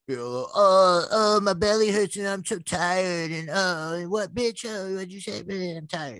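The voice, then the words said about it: Imitates another person's voice. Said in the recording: “my impression of Grant, and it was perfect”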